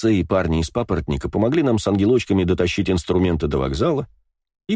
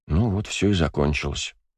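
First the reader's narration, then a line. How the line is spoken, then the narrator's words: Quiet. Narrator (Russian): тихо проговорил Бельфигор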